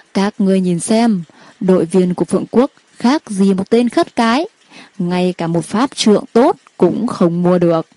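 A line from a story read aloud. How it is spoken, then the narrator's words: Loud mocking laughter. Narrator (Vietnamese): Một đội viên của Lý Quốc cất tiếng cười to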